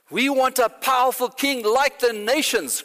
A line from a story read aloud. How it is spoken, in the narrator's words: cried out Israel